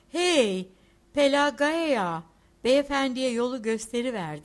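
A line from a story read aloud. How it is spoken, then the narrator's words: Shouted. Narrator (Turkish): diye bağırdı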